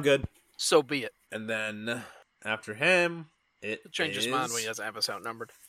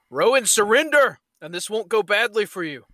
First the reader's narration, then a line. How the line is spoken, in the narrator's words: Theodosius would yell